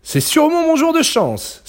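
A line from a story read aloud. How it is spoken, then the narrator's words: Fox crying out. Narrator (French): s'écria le renard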